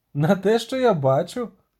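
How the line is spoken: Laughing. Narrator (Ukrainian): засміявся Барт

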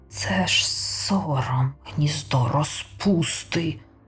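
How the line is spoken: Muttering to himself. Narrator (Ukrainian): бурмотів про себе Шадвел

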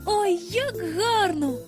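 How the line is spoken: Passionate exclamation. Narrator (Ukrainian): вигукнула Венді так жагуче

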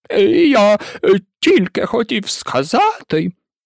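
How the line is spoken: Offended tone. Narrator (Ukrainian): промовив ображеним голосом

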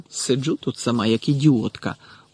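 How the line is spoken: Grumbling. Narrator (Ukrainian): буркнула вона

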